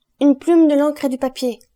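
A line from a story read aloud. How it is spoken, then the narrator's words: Shouting. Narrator (French): cria à son tour Fernand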